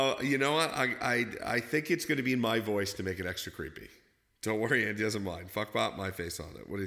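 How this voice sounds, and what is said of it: Usual voice. Nothing is said of it.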